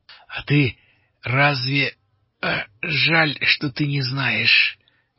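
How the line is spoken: Strained, forced out. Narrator (Russian): выдавил с трудом Алири

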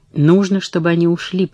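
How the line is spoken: Through gritted teeth. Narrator (Russian): проговорила Катрин сквозь зубы

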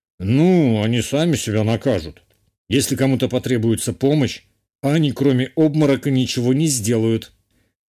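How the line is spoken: Scoffing. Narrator (Russian): хмыкнул герцог

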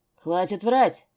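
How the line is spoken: Sudden barked retort. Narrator (Russian): неожиданно рявкнул в ответ

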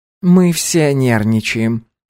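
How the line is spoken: Soft. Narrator (Russian): мягко произнесла Наоми

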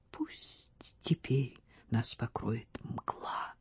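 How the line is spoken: Soft whisper. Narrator (Russian): тихо прошептала

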